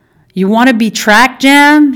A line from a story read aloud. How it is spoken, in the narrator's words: He yelled